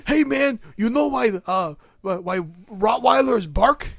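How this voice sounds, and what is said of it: Carlos Mencia impression. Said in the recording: “you're being racist by doing his accent ... that's not even an accent”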